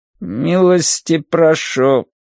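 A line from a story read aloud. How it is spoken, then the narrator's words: Tinny creaking buzzing machine voice. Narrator (Russian): заговорил автомат жестяным голосом с некоторой примесью скрипа и жужжания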